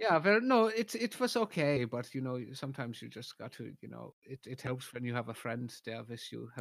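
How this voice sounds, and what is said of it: Usual voice. Nothing is said of it.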